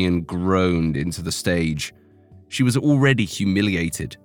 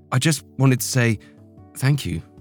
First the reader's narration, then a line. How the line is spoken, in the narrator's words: said nervously